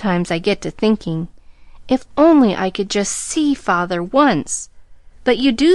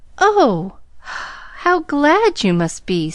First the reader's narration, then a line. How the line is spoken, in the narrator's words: sighed Pollyanna enviously